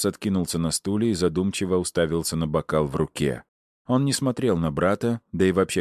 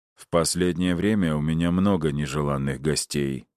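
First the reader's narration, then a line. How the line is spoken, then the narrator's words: Even-voiced reply. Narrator (Russian): ровным голосом ответил тот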